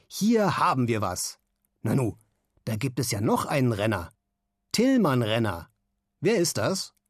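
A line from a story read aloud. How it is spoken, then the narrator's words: Stern. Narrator (German): sagt Nikolaus Simon jetzt streng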